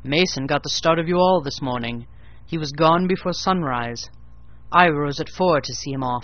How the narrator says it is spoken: he went another, and I heard him in the yard, saying cheerfully

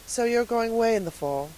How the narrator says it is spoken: said Miss Lavendar wistfully

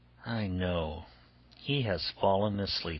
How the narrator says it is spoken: she said to herself, sighing

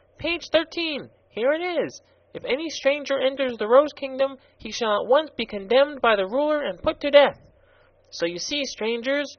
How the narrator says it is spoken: he continued triumphantly

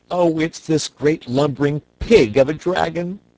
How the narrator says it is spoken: sobbed the boy

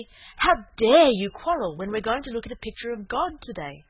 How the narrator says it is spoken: Cecily said severely

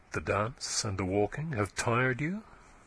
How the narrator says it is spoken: he said tenderly

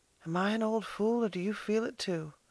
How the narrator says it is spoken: she half whispered

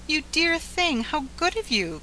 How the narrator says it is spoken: cried the angel

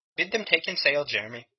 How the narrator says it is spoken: said quietly

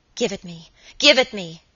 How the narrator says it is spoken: she cried

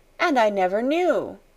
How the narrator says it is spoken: she cried woefully

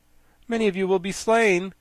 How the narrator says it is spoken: continued the boy in an odd voice

